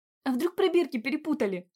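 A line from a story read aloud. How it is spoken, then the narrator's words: Horrified exclamation. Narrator (Russian): с ужасом воскликнула Вера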